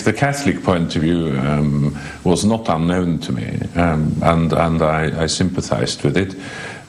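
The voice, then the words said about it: British-sounding English accent. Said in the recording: “your accent, your English accent, sounds British”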